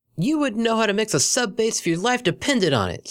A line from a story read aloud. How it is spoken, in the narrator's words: screamed Vinyl